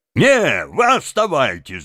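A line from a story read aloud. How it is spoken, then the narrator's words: Crowd shouting. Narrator (Russian): закричали из толпы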